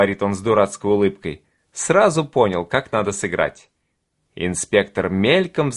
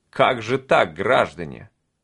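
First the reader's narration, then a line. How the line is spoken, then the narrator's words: Less menacing. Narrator (Russian): произносит уже менее грозно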